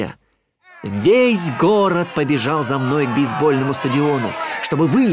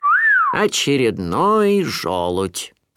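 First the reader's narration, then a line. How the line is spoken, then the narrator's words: Grumbling. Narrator (Russian): проворчал кто-то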